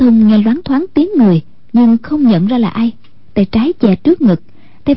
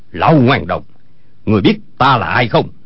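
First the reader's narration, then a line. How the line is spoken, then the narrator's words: Shouting. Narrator (Vietnamese): quát lên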